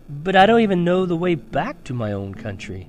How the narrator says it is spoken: pleaded Edmund

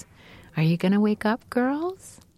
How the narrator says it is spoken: say, in that beautiful voice of my mom's

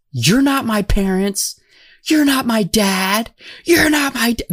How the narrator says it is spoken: like screaming

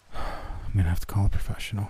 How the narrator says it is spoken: I muttered

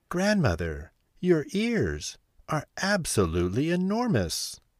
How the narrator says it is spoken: exclaimed Little Red Riding Hood

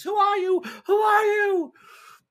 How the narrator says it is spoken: the girl just screams

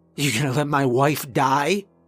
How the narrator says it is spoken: I choked out

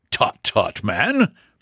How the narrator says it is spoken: exclaimed Thorndyke

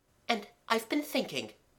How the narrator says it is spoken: said Mabel brightly

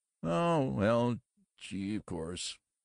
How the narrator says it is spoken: sighed Graft

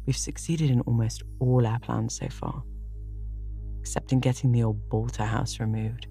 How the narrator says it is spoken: said Gilbert

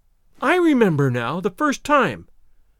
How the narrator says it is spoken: I exclaimed, more angry than I had ever been before in my life

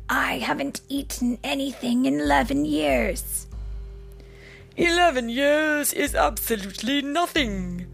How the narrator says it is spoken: remarked another one of the dragons, sleepily

